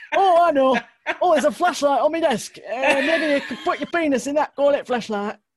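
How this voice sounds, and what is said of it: Put-on northern English man's accent. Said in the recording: “That is quite possibly the best accent I've ever heard. I actually thought you were channeling a man then ... I do love a northerner.”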